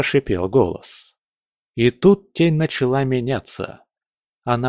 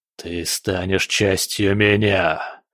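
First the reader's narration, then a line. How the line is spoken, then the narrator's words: Monster's growl. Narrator (Russian): прорычал монстр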